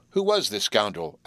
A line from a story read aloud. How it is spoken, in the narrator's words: asked Frank, uneasily